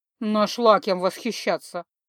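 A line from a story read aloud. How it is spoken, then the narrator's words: Snorting. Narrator (Russian): хмыкнул Кумивар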